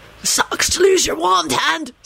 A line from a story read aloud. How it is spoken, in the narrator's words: Sirius rasped out